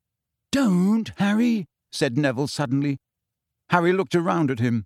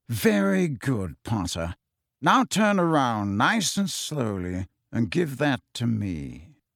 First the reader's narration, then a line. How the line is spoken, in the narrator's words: a drawling voice said